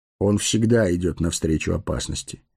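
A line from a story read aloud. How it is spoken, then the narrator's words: Calm. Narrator (Russian): спокойно сказал странник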